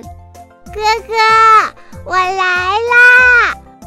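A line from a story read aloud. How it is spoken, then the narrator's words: Breathless, eager shout while running. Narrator (Chinese): 红豆像只小鸟一样飞跑过来，边跑边喊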